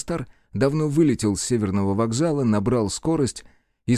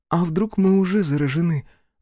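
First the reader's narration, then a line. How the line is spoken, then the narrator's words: Sighing. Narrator (Russian): вздохнула Беатрис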